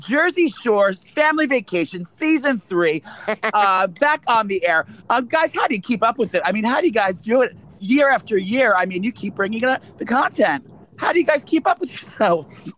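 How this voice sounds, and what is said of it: Put-on reporter voice. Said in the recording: “Wait, can I pretend I'm a reporter? Listen, I'm going to do my voice.”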